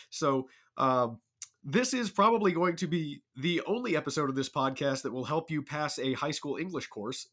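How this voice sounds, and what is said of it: Ill, strained voice. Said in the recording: “recovering from varying stages of illness ... apologies for the way that I sound ... my voice is slowly coming back”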